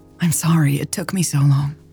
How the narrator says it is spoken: breathed

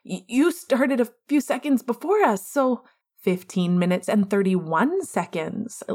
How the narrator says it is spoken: Lily said triumphantly

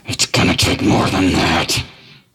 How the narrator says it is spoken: say through gritted teeth

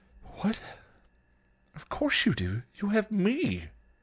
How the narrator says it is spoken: Buffy gasped, shocked

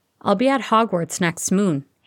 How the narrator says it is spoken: Harry said quickly

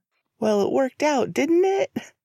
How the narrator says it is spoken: He laughed

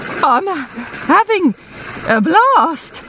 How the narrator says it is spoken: pants Hamster United's goalkeeper

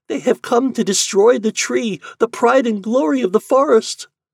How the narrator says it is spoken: cried the vine

